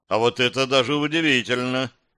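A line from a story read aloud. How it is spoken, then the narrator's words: Wry snort. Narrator (Russian): хмыкнул Торклинец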